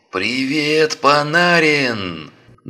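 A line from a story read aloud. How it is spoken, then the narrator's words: Insolent declaration. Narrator (Russian): наглым голосом заявил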